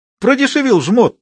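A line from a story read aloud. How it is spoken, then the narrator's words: Excited, eager shout. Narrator (Russian): с азартом закричал он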